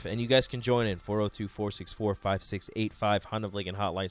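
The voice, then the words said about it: Tired, strained voice. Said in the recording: “tired, y'all ... give your voice a little rest”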